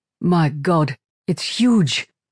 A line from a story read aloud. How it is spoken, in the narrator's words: Vishal exclaimed